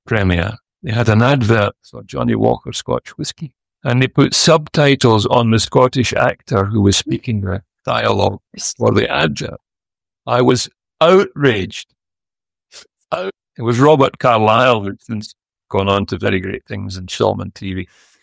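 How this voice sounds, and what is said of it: Scottish accent. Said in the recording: “it's a Scottish accent ... you can understand me perfectly well ... I love the Scottish accent”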